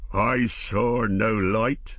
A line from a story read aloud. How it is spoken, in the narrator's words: the master roared